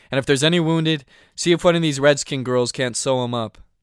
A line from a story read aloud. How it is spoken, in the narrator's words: I called out